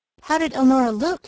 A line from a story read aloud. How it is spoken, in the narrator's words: inquired Margaret anxiously